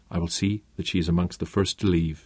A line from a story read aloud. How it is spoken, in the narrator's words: murmured